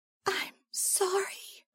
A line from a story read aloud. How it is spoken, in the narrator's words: whispered, starting to cry